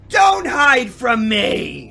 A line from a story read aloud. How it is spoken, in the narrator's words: she shouted from outside